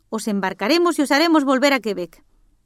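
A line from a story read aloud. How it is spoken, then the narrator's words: Shouted by the chief. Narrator (Spanish): gritó el jefe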